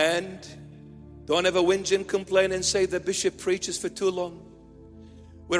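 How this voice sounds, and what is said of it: Usual voice. Nothing is said of it.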